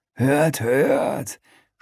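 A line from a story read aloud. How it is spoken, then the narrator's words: Mocking. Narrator (German): spottet der Flüchtling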